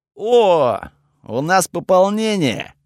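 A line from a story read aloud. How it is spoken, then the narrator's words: Cheerful voice. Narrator (Russian): веселым голосом отозвался Готфред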